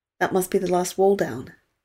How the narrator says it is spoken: Kate said

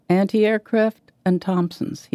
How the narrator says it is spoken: he said

